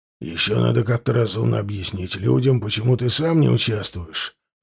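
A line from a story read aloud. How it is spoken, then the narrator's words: Worried mumble. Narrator (Russian): озабоченно пробормотал тренер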